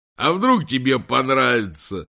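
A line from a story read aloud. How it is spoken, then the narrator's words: Hysterical laughter. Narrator (Russian): Здоровяк истерически захохотал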